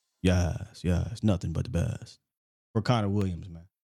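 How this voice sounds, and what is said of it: Imitated Law Nation voice. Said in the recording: “in my Law Nation voice.”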